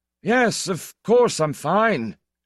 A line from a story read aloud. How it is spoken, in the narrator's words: said Count Orlant hoarsely, while the tears ran down his handsome face